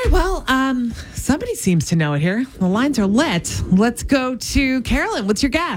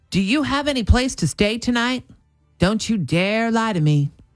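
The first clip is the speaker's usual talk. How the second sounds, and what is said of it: Put-on Southern American accent. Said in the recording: “Is that a decent Southern accent? ... Actually, for you, that was good. ... No, I think that was good. Both times you nailed it”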